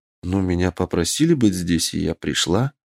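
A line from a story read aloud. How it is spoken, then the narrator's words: Calm. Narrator (Russian): спокойно ответила она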